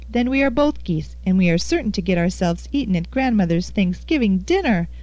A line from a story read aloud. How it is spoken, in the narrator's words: laughed Annie good-naturedly